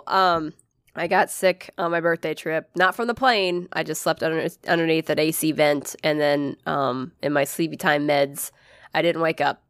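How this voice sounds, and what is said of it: Rough, raspy sick-sounding voice. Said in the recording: “I sound like a garbage disposal this fucking episode ... I got garbage sick ... everything got dried out”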